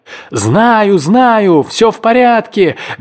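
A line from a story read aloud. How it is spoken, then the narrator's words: Carefree shout from shore. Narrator (Russian): беззаботно заорал в ответ человек с берега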